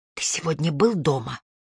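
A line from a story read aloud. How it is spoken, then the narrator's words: Whisper in ear. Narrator (Russian): Я прошептала ему на ухо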